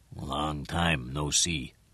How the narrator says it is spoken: In a hoarse voice, he said

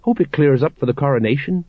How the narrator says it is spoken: Colon went on in a worried voice

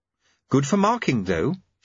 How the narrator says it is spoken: said Susan calmly

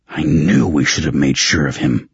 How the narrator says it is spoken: Raven growled

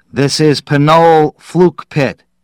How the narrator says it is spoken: Norm said loudly into the microphone

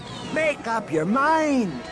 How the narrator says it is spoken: Droma yelled back

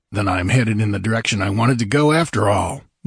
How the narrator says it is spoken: muttered Conan, heedless of that remark

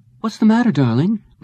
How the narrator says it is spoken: Lisa asked him uneasily

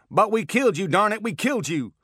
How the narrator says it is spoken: Kirkenhazard shouting over and over

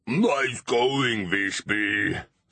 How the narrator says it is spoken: snarled K-Max

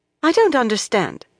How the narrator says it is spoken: Lorella said sharply

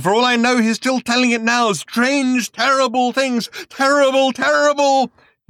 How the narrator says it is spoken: he screamed

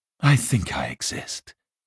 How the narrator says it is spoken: he said wearily

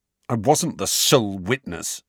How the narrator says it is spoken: snarled

